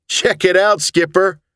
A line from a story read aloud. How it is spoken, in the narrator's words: he giggled